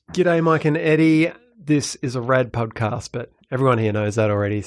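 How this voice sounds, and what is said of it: Australian or New Zealand accent. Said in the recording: “As Americans, we can't tell the difference in the accent... he's clearly Australian, but maybe it's New Zealand. He could be Kiwi.”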